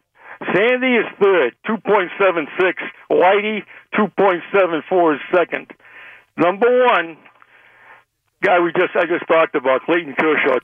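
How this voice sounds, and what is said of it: Boston accent. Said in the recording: “I thought with the accent, maybe you were going to be a Red Sox fan... what I'm hearing is a Boston fan”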